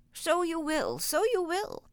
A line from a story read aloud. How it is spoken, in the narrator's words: chuckled the queer little old man